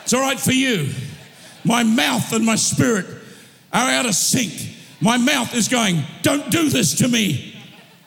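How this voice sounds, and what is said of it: Yelling, loud forceful speech. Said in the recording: “why are you yelling?”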